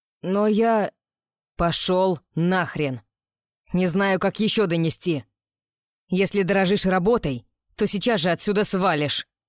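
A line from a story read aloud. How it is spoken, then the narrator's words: Barking. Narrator (Russian): гаркнул Роу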